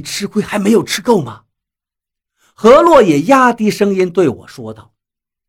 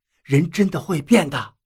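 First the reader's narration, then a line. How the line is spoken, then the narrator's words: Quiet question. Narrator (Chinese): 我小声地问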